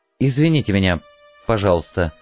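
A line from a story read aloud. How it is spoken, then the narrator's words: Mumbled. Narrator (Russian): пробормотала она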